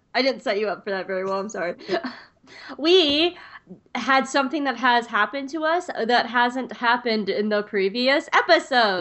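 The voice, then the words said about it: Sniffly, congested voice. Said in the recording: “sorry if I'm sniffly, listeners ... I'm going to be a little sniffly”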